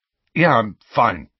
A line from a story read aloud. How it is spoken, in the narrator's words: said Harry gruffly